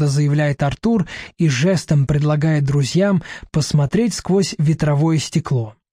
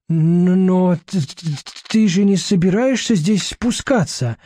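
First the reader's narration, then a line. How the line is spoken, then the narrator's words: Bleating voice. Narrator (Russian): блеющим голосом спрашивает Барахлюш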